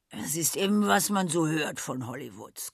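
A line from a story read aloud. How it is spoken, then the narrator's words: Grunting. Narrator (German): grunzte Rosebud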